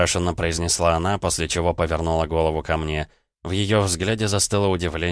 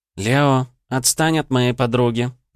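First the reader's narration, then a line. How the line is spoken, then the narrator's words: Sugary cooing voice. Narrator (Russian): приторным голосом проворковала Ванда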